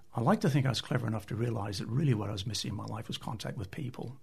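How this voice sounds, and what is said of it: Canadian accent. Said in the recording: “You can tell by my accent, I'm not from here. I'm originally Canadian”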